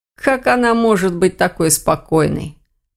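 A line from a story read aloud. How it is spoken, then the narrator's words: Muttered. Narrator (Russian): пробормотал Грифон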